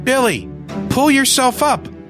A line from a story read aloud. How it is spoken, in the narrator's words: I yelled to him